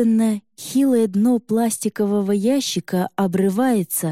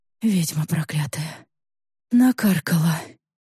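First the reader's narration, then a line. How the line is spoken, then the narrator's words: Faint whisper. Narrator (Russian): Тихо шепчет она побелевшими губами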